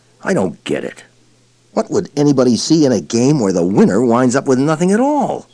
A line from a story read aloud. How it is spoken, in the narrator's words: Joe Houck grumbled